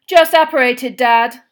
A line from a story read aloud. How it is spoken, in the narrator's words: said Percy loudly